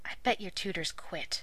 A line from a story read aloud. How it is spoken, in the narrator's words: Merlin muttered